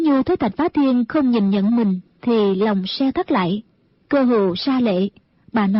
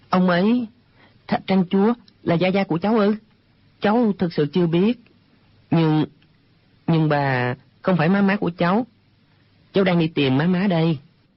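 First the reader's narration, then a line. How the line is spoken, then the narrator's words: Hesitant stammering. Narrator (Vietnamese): Hồi lâu chàng mới ấp úng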